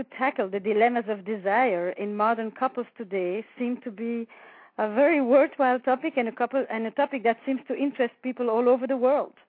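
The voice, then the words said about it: Flemish Belgian accent in English. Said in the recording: “I was born in Belgium, in the Flemish part of Belgium. ... my mother language is actually Flemish. ... Despite the accent you're probably going to hear.”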